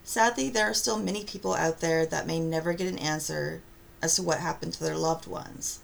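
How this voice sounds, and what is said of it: Congested voice with a cold. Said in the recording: “Sorry for the poor audio quality. In case you can't tell, I've got a bit of a cold.”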